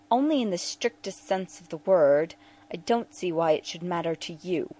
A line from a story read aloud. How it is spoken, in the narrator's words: Bashir snapped